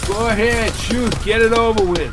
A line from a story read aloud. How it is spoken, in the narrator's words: shouted McGee